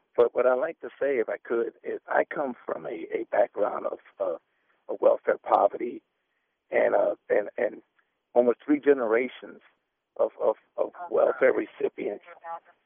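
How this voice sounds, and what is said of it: Voice cracking from a cold. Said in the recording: “my little voice crack, and I have a little cold.”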